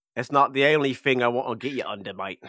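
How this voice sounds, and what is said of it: Attempted Kiwi accent, sounds Australian. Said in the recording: “The mate was more Australian... he's still working on his Kiwi accent. He's failing at his...”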